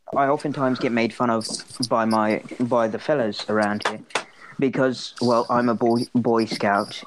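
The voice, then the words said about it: Put-on English accent. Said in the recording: “my father is rather rich and he is an ambassador between England and America ... I am quite the ladies' man with my accent”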